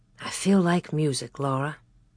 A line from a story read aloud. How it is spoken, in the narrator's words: Pa said softly